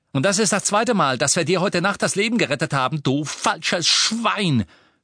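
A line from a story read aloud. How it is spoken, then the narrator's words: Shouted. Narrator (German): schrie Ron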